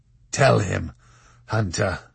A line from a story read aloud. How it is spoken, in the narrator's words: rasped the Marquis de Carabas